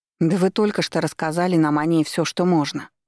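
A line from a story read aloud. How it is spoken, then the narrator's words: Angry blurt. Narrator (Russian): выпалила Снежана, сердито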